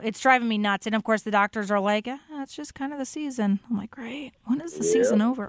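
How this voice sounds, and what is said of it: Raspy, hoarse voice. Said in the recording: “you can probably hear it in my voice. I have had this weird, lingering, raspy voice”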